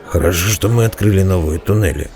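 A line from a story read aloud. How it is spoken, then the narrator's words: Grumbled. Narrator (Russian): проворчал Бреннер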